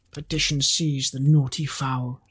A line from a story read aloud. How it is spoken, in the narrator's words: he muttered